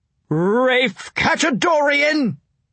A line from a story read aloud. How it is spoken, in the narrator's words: Stricker shouted after me